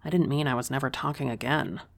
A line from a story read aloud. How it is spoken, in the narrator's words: said under my breath